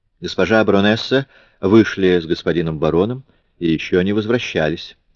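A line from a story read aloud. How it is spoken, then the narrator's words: Plain. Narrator (Russian): сказал ему Баск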